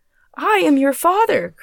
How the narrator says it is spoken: cried he

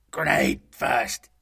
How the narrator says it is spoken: rasped

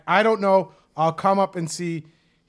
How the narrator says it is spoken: The 94-year-old yells back

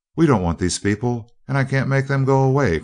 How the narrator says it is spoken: cried Dorothy

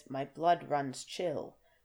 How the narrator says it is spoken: his voice fell dead on the dank fir needles at his feet

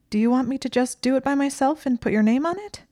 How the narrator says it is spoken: Hermione asked in a shrill voice

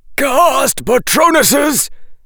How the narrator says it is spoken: shouted the headmaster

